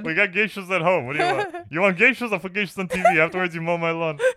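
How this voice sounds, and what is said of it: Imitates a parent's voice. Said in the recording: “You sound like my mom. ... you sound like Sebastian's dad.”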